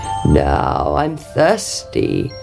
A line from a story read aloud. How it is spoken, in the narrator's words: croaked the frog